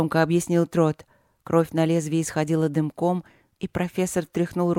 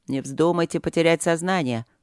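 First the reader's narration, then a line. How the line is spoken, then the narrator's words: Dry warning. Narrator (Russian): предупредил Трот сухо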